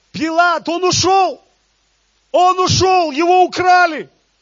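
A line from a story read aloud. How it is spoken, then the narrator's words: Shouting. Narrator (Russian): они кричали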